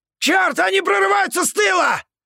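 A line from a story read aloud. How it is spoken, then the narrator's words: Loud yell from below. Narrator (Russian): Заорал кто-то внизу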